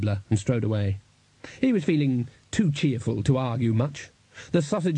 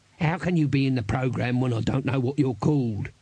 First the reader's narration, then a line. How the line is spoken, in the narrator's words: said Dibbler, waving a hand irritably